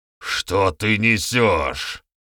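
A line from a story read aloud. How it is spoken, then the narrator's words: Barked shout. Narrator (Russian): рявкнул этот человек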